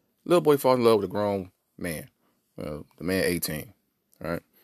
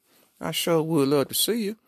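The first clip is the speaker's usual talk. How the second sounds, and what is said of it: Put-on South Carolina accent. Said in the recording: “because he's from South Carolina, they got an accent.”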